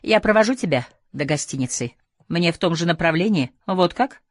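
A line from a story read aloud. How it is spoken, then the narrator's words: Curt retort. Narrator (Russian): бросила Летти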